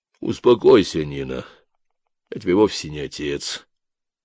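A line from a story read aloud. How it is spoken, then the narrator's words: Gentle speech. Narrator (Russian): мягко сказал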